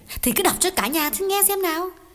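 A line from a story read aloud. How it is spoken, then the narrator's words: Mildly irritated old woman. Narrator (Vietnamese): Bà Thủ gắt nhẹ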